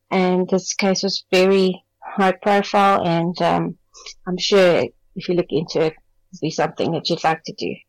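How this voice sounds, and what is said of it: Beautiful accent. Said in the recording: “What a beautiful accent.”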